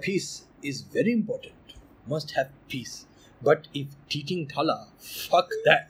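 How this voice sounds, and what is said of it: Calm Indian accent impression. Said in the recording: “my Dalai Lama impressions ... Indian accent. More calm.”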